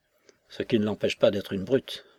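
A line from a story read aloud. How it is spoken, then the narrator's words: Murmuring. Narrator (French): murmura Razumov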